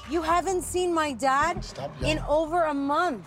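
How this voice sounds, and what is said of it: Yelling, raised angry voice. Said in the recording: “Stop yelling.”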